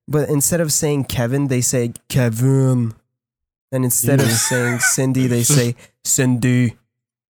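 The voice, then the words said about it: Weird robotic put-on accent. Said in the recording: “that didn't even sound like an accent. That was you doing a weird robot man voice.”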